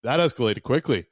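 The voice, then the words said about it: Imitated news anchorman voice. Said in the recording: “in my best anchorman voice,”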